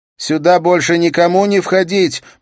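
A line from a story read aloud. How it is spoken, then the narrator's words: Shout. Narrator (Russian): прокричала она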